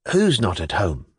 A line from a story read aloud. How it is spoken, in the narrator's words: muttered